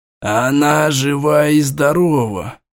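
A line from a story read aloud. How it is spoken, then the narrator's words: Relieved exhale. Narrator (Russian): облегченно выдохнул Аймара Аланта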